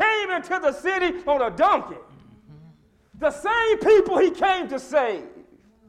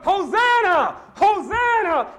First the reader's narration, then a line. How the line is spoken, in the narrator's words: people were hollering